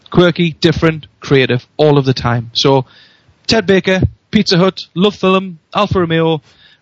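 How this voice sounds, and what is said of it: Newcastle (Geordie) accent. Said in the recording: “I love your Newcastle accent ... It's a great accent. I love it.”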